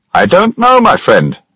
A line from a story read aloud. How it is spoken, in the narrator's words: shouted back